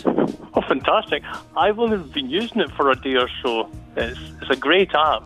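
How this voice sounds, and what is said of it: Scottish accent. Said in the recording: “really digging the Scottish accent.”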